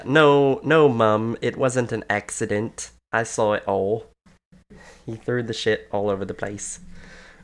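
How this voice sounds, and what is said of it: Put-on British accent. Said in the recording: “that's my British service accent.”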